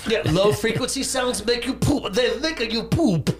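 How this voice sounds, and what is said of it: Bad put-on German accent. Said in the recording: “That's a horrible German accent.”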